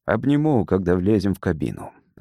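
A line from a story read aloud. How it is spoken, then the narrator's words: Plain. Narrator (Russian): ответил он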